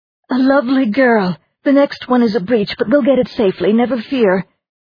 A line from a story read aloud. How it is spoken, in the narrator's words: A Tano woman exclaimed